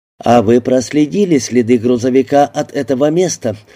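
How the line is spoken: Plain. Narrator (Russian): спросил мистер Ридер

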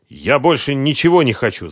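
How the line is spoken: Angry curt retort. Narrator (Russian): зло отрезал Сергей Викторович

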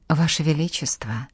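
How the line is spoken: Soft, gentle start. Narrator (Russian): мягко начала Жанна

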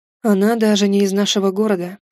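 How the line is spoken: Heavy sigh. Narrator (Russian): тяжело вздохнул он

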